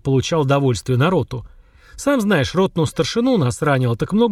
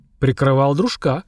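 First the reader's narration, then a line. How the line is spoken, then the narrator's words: Two men snorting. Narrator (Russian): хмыкнул в усы старшина вместе с напарником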